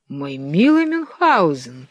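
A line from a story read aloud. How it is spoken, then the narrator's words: Exclamation. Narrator (Russian): воскликнул султан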